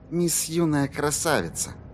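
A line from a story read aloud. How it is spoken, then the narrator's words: Barely audible murmur. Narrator (Russian): едва слышно пробормотала Корделия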